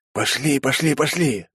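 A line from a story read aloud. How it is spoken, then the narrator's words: Urgent hiss into ear. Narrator (Russian): зашипел в самое ухо Вяземский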